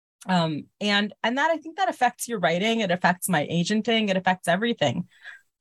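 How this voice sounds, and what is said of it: American accent. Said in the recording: “I sound American”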